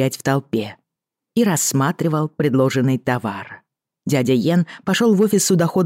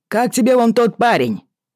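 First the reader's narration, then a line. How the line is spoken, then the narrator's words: Shout in ear. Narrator (Russian): крикнул ей прямо в ухо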